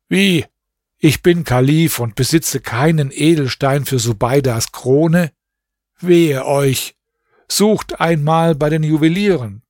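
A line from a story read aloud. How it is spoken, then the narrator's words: Dismayed exclamation. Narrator (German): rief er bestürzt aus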